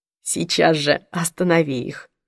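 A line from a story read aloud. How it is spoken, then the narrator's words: Whispered. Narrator (Russian): прошептал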